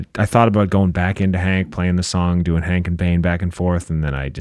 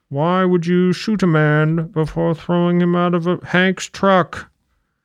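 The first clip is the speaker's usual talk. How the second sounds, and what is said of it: Bane impression. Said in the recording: “his Bane impression”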